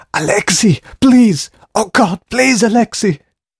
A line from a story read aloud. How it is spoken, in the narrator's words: Dragor's voice was a high-pitched scream